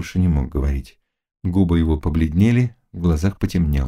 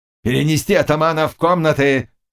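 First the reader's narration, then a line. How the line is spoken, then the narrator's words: Shouted. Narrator (Russian): крикнул пан Заглоба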